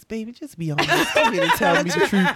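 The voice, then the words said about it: Sweet, sugary voice. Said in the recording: “in my sweetest voice,”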